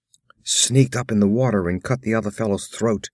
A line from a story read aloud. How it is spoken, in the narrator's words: groaned Balthus